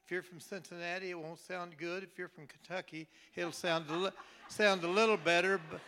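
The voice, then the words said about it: Slight Southern twang. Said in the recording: “You still got that little twang”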